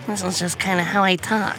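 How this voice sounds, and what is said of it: Lisa Simpson cartoon voice impression. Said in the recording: “That wasn't a bad Lisa for the first attempt.”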